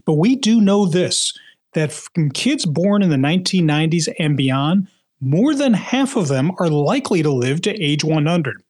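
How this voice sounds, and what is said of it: Philadelphia accent. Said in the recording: “you may be able to hear this in my my accent, that even though I'm a proud New Englander now, I grew up in Philadelphia”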